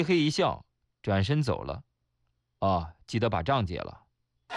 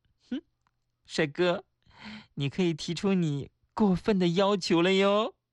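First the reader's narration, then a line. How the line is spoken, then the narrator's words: Coquettish, smiling. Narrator (Chinese): 她终于对我妩媚的一笑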